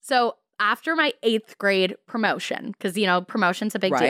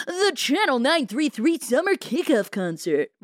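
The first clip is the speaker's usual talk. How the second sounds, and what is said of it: Radio announcer voice. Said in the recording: “That was a great radio voice ... it totally sounded like that.”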